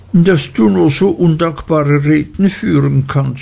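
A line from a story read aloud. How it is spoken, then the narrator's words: Sobbing. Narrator (German): schluchzte Dora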